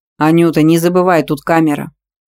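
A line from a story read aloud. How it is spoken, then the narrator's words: Velvety voice. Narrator (Russian): бархатным голосом напомнил Ветровский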